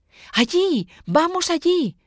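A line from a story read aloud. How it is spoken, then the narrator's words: Shouting. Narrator (Spanish): grita Andrés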